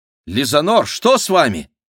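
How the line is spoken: Exclaimed. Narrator (Russian): воскликнула

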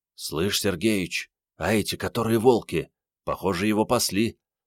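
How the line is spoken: Whisper. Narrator (Russian): прошептал Генка

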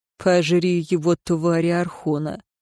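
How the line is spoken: Grumbled. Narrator (Russian): Динталь проворчал

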